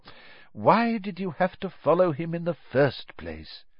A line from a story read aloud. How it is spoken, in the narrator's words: said Dumbledore sadly